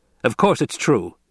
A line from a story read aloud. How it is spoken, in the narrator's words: the Duke snapped